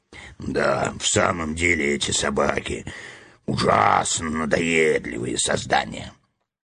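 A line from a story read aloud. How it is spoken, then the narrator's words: Muffled low bass. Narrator (Russian): Ганнибал поддержал его глухим баском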